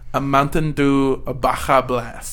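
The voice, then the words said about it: Bad put-on accent sounding Italian. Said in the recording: “This accent is fucking terrible. ... It's so Italian.”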